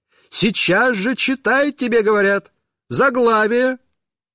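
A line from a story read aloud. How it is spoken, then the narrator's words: Shouting. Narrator (Russian): она кричала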